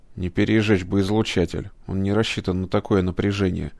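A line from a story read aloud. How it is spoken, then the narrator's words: Muttering. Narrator (Russian): пробормотал кибернетик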